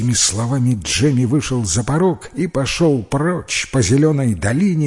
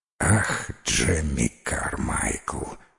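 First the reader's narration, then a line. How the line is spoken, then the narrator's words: Sighing. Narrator (Russian): вздохнул он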